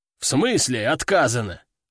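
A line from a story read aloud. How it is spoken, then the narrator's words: Veteran's growl. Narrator (Russian): рыкнул ветеран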